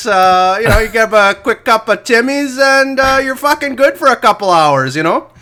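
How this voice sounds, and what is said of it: Mixed Canadian and Boston accent. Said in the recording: “That's the Tim Hortons and Boston accent mixed into one.”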